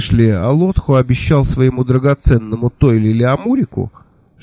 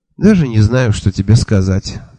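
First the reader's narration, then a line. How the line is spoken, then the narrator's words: Sighing. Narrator (Russian): вздохнула она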